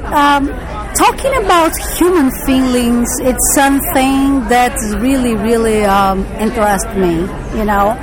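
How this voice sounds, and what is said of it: Brazilian accent. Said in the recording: “I hear a nice accent... This accent is from Brazil.”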